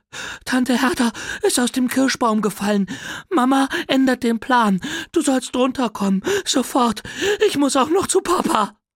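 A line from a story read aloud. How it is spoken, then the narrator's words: Breathless panting. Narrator (German): völlig außer Puste ... keuchte und sagte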